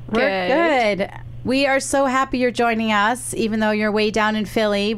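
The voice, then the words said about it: Sick, weird-sounding voice. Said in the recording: “I am sick. That's why I sound like this ... why I sound weird”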